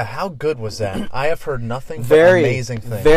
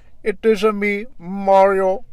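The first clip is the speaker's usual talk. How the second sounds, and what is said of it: Mock Indian-Italian accent. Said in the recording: “How do you mix like an Indian and Italian accent?”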